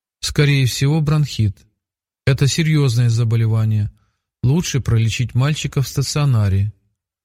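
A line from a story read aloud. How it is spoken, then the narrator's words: Routine flat voice. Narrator (Russian): дежурным голосом вынесла врач свой вердикт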